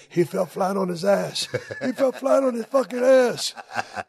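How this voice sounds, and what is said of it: Davey Boy Smith's Manchester accent. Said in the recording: “Davey Boy with that Manchester accent.”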